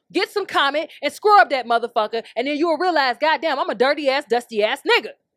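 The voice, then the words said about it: Yelling, loud voice. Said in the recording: “sorry for yelling”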